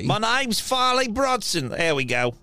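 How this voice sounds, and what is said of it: Put-on character accent. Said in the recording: “I forgot my accent. ... I slipped back into hemlock there.”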